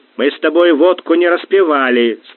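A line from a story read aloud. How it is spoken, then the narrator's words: Stern. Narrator (Russian): строго сказал он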